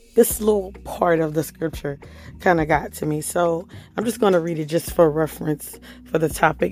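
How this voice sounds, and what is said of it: Hoarse voice. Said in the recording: “excuse my voice. I'm so hoarse. Please excuse my voice.”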